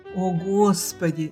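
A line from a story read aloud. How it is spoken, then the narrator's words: Sigh. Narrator (Russian): Король вздохнул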